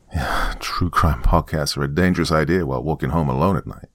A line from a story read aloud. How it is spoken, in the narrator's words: I chuckled to myself